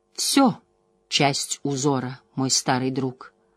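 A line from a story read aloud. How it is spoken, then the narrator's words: Gentle reply. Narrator (Russian): мягко ответила Морейн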